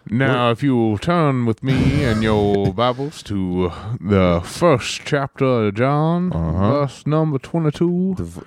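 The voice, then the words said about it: Spooky disembodied voice. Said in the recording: “The voice, the disembodied, spooky voice”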